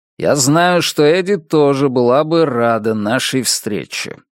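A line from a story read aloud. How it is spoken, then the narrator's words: Gloomy. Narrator (Russian): мрачно продолжил Йомен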